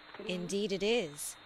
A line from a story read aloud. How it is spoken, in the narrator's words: said I